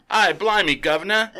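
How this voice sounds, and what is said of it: Exaggerated put-on Cockney accent. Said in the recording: “super cockney”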